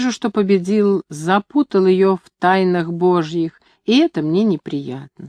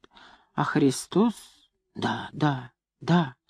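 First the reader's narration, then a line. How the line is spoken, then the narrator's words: Embarrassed mumbling. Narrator (Russian): Бабушка смущенно бормочет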